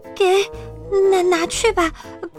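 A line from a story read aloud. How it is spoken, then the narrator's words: Frightened stammering. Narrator (Chinese): 绵羊太太吓坏了，她结结巴巴地说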